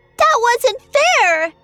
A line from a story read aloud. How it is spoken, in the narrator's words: wailed